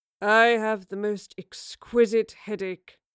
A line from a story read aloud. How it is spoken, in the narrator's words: Oscar groaned